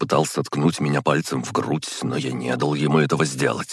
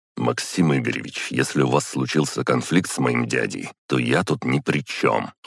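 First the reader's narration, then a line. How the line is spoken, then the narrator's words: Cold. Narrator (Russian): холодно сказал я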